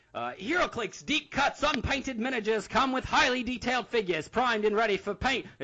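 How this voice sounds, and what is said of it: 1930s radio announcer voice. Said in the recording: “in my extremely obnoxious 1930s radio announcer voice ... Is that turning into an Australian accent ... It is, yeah, you're drifting, bud.”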